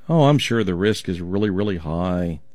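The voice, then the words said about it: Sarcastic tone. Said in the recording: “You know I'm being sarcastic,”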